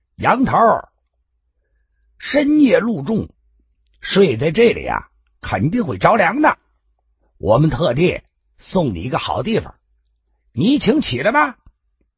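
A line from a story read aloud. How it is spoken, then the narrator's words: Loud. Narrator (Chinese): 大声的说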